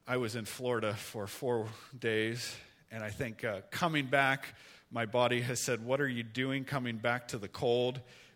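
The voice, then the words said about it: Slightly hoarse, not-quite-normal voice. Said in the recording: “my voice isn't quite normal”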